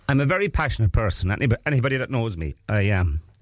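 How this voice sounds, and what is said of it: Emotional, moved voice. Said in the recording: “I'm getting emotional now because I'm thinking about that.”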